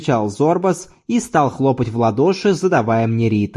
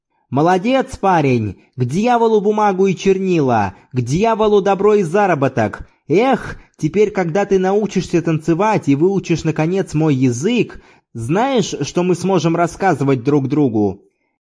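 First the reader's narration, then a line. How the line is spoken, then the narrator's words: Shout. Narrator (Russian): крикнул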